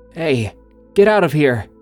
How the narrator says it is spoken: In my sleepy state, I lifted my head from my pillow and called out

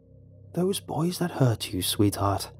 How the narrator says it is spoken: she whispered

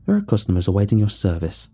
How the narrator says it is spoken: sneered

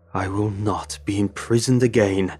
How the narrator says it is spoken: Lemon Belly snarled

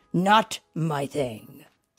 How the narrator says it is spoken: Sam replied firmly

